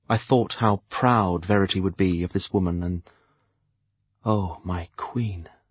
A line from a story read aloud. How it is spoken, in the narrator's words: I breathed to myself